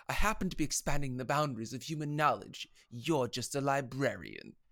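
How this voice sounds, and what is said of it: Imitates another person's voice. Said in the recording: “can we all do our best impression of him saying literally anything?”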